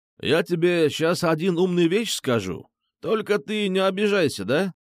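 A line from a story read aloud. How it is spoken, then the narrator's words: Imitated accent. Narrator (Russian): С выговором Фрунзика Мокротычана произнес я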